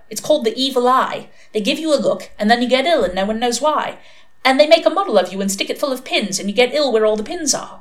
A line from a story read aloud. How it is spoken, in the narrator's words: she added cheerfully